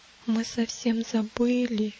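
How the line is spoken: Barely audible whisper. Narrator (Russian): еле слышно прошептал надеющийся

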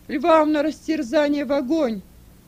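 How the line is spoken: Crowd shouting. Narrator (Russian): Все закричали

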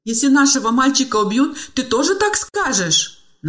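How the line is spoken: Desperate sobbing scream. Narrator (Russian): надрывно всхлипывая, закричала в отчаянии мать

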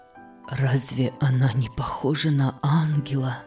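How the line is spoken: Whispered. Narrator (Russian): шептал он

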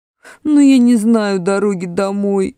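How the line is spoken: Whining. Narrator (Russian): заскулил Эдмунд

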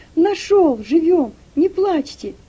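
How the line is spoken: Shout. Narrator (Russian): крикнул Игнат

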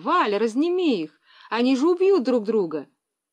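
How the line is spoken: Shouted. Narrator (Russian): Лиля закричала

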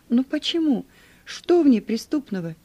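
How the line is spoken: Exclamation. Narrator (Russian): воскликнул я

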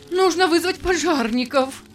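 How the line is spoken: Horrified cry. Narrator (Russian): в ужасе вскрикнула госпожа Джарвис

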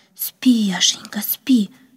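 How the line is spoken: Whisper. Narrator (Russian): прошептала она

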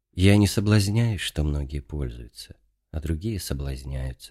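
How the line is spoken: Calm answer, old man. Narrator (Russian): ответил спокойно старец

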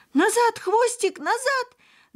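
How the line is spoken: Screamed in a strange voice. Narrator (Russian): Закричала она не своим голосом

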